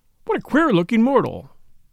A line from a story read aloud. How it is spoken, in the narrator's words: an English voice behind him exclaimed in a very audible tone